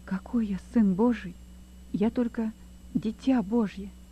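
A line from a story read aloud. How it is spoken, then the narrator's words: Quiet. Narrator (Russian): Лёва тихо ответил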